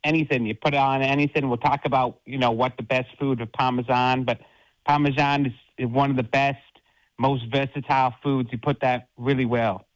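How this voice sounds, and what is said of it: JFK-like accent. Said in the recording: “you sound a little like JFK ... a little JFK ... Don't talk about the accent.”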